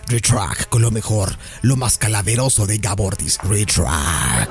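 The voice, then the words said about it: Imitates a radio station voice. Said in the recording (Spanish): “yo también puedo hacer la voz de Retrack”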